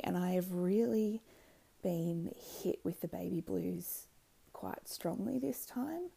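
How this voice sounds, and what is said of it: Tired, tearful-sounding voice. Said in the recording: “As you can probably tell from my voice, I'm tired, but I've also spent most of today crying.”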